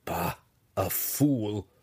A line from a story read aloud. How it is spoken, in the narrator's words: Hatchnut chuckled